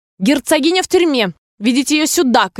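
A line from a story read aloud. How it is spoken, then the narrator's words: Commanding shout. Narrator (Russian): крикнула королева палачу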